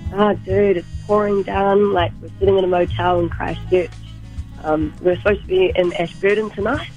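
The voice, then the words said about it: Hoarse, fading voice. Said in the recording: “I don't know if you can tell. I'm, sort of losing my voice.”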